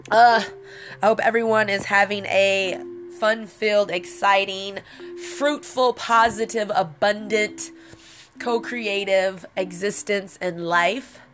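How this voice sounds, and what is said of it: Congested, stuffy-nosed voice. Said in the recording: “I sound congested.”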